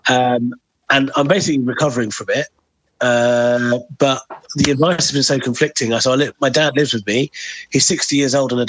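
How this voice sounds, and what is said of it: Rough, hoarse voice. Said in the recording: “it doesn't have the same sultry, deep tones that you may be accustomed to ... It's quite rough ... I was nursing a cold and a cough”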